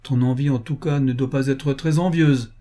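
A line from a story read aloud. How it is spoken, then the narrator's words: Laughing. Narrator (French): dit Wilkinson en riant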